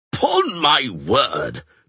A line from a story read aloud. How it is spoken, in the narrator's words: the checkered knight roared